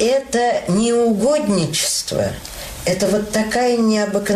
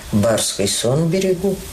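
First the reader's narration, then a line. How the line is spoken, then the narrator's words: Calm. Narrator (Russian): Он мне так спокойно сказал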